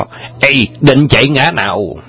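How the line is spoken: Shouting together. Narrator (Vietnamese): Anh em song quái thấy Châu Bá Thông chạy trốn, đồng quát to

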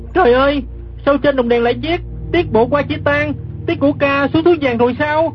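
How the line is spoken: Startled cry. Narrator (Vietnamese): Gã kép hát đang nằm dưới đất, giật mình la lên

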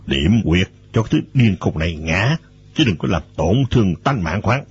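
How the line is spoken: Quiet murmur. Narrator (Vietnamese): Trung Trấn nói khẽ

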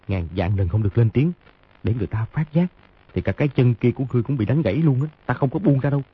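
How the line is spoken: Low threatening voice. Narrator (Vietnamese): hạ giọng dọa

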